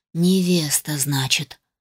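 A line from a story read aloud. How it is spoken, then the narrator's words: Dull, muffled repetition. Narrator (Russian): глухо повторил мой муж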